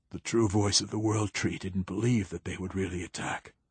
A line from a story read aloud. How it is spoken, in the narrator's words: he whispered, his voice raw